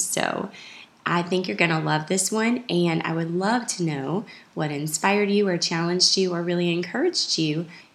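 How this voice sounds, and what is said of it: Scratchy voice from a cough. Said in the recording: “I have a terrible cough right now, and so my voice is a little scratchy”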